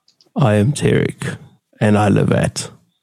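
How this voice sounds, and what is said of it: Attempted deep voice, not very deep. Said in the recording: “put on my best deep voice ... If that's your um, best deep voice, you best uh, lift your game, son ... still not very deep”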